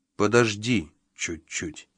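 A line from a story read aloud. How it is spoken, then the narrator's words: Soft. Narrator (Russian): мягко произнес он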